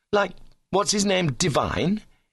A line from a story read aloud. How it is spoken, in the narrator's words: he said sullenly